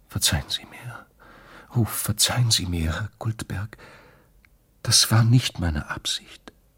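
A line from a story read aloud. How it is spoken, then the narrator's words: Whisper. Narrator (German): flüsterte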